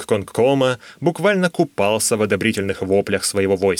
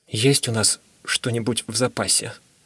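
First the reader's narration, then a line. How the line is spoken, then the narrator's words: Whispered question. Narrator (Russian): шепотом спросил я Тень Короля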